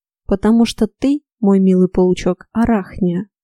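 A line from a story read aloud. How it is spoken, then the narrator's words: Gentle, condescending. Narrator (Russian): Ласково, словно говоря с неразумным ребенком, объяснил Морган, незаметно оставив свой безукоризненно вежливый тон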